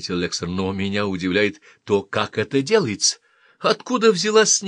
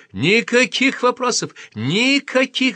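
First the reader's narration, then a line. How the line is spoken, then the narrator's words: Shout. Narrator (Russian): закричал Шастер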